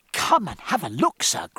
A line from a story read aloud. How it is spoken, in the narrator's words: cried Reed in great glee